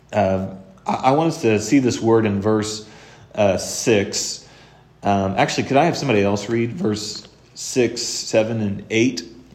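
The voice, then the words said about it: Strained, struggling voice. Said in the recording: “my voice is struggling a little bit this morning.”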